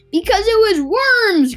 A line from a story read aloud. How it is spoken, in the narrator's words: cried Mr